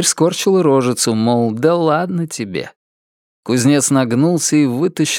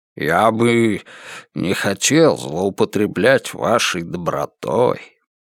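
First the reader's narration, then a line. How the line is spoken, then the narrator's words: Muttered. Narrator (Russian): Пробормотал он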